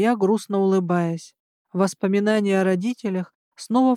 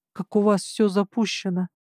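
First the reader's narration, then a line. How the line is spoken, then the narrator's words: Mumbling. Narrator (Russian): пробормотала я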